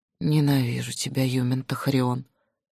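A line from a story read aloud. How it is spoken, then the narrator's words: Hoarse declaration. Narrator (Russian): обессиленно смогла хрипло заявить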